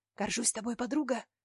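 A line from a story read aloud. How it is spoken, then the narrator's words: Quiet whisper. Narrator (Russian): тихо шепнула Вика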